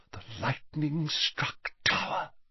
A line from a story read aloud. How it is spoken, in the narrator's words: she whispered